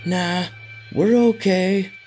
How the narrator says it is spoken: Ralph shouted back

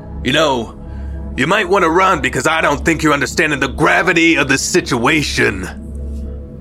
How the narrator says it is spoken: Albert shouted from the porch

